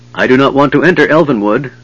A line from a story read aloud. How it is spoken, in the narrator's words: Riverwind said harshly